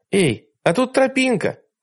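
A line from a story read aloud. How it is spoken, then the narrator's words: Shout. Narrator (Russian): крикнула она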